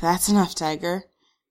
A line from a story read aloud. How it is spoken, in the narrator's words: Kristen pants, hating how breathless she sounds